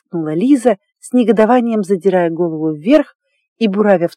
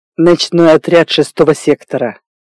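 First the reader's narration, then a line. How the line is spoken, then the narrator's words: Barked. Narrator (Russian): рявкнул Фавора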